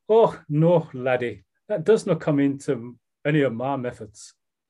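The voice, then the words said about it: Imperfect put-on Scottish accent. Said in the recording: “I'm going to do a Scottish accent ... in a Scottish accent, obviously ... probably my Southeast London version of a Scottish accent”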